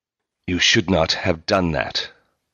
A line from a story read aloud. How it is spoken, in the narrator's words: Markle said in a low, furious voice